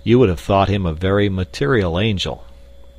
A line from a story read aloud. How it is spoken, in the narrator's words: laughed Clayton